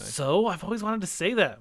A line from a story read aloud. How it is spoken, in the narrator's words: Moonshadow whispered back